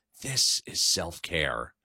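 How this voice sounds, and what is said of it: Whispering. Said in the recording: “whispering,”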